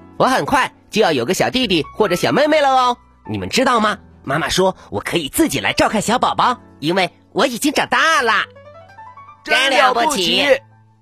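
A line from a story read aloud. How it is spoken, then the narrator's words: Excited shouting. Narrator (Chinese): 可可猪和辣辣猪都兴奋的大叫起来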